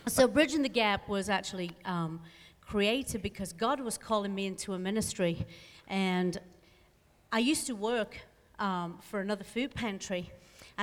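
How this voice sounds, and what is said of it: British accent. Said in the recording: “Do you hear that British accent? ... it's British”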